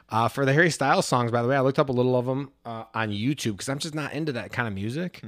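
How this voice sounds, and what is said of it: Nasal Midwestern American accent. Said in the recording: “us Americans with the Midwest accents ... I'm the one with the accent. ... that nasally Midwestern crap”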